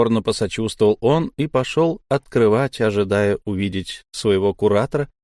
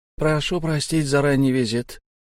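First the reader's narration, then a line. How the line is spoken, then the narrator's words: Flat colorless voice. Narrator (Russian): бесцветным голосом произнес гость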